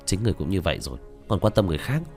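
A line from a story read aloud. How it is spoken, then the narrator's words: Startled muttering. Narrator (Vietnamese): Tạ Vô Tình cũng giật mình, lẩm bẩm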